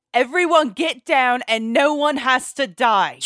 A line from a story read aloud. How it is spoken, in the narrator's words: screamed Cog